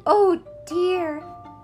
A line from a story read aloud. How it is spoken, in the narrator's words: cried the little rabbits